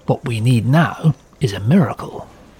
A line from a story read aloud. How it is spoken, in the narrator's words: RAF Air Chief Marshal Hugh Dowding, stuffy to his men, was muttering